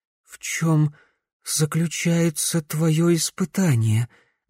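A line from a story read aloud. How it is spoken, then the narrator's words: Trembling voice. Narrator (Russian): дрожащим голосом спросила Глория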